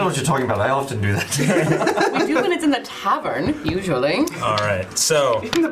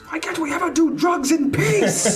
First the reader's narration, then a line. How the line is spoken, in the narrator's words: Marcus screams